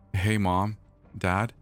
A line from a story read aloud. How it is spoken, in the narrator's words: he said